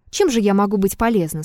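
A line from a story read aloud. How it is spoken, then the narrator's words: Plain. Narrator (Russian): спросила Елисавета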